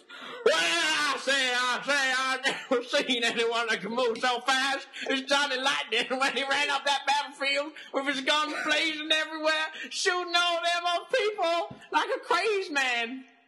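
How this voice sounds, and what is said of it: Exaggerated American Southern accent. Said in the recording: “You sound like a Southern general from America.”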